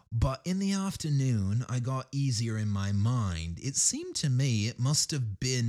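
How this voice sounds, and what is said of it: Usual voice. Nothing is said of it.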